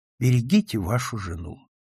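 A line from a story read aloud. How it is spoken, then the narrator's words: Meaningful tone. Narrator (Russian): сказал я ему многозначительным тоном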